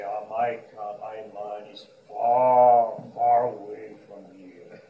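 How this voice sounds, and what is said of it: Deep voice. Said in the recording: “deep voice”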